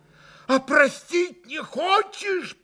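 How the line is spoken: Shouted with frantic reproach. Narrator (Russian): прокричал Митя Грушеньке с безумным упреком

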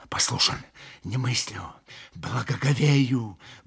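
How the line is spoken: Muttering. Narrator (Russian): бормотал Митя

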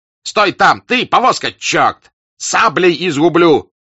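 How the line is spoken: Shouting. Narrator (Russian): кричал он

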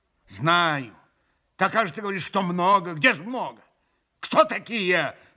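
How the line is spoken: Alarmed cry. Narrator (Russian): вскрикнул Митя в страшной тревоге при неожиданном известии

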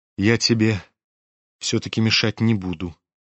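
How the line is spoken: Quiet, pensive. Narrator (Russian): тихо проговорил он, почти задумчиво, как бы отвечая какой-то своей внутренней, затаенной мысли

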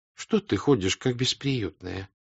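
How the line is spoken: Plain. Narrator (Russian): сказала ей мать

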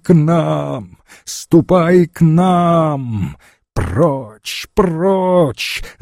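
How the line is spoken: Shout. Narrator (Russian): закричала Даша

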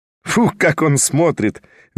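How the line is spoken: Cheerful triumphant laughter. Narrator (Russian): весело рассмеялась торжествующая Арина Прохоровна

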